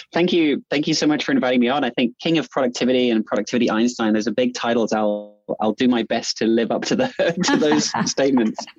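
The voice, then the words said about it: New Zealand accent. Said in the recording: “a Kiwi ... listening to your accent”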